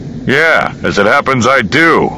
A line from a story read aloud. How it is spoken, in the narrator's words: Hans said, his voice hardening